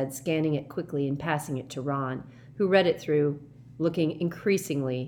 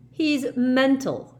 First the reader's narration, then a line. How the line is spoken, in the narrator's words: he said furiously